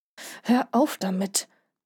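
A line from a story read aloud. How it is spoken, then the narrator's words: Hissing. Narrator (German): zischte Jan Henrik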